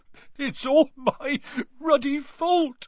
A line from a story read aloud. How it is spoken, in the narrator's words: he sobbed, his face in his hands